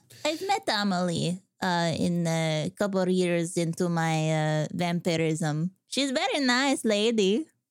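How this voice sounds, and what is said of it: Put-on accent, drifting Borat-like. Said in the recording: “Still working on the accent, guys. ... I felt like a little Borat came out there.”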